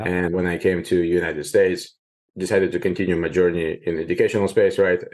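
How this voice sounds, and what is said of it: Ukrainian-accented English. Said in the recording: “I'm hearing an accent there. It doesn't really sound Northern California exactly ... This is not the Native American accent ... immigrated from Ukraine”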